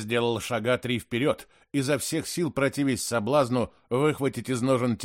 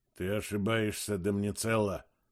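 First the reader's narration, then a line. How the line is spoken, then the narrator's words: Muttering. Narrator (Russian): пробормотал один из бритоголовых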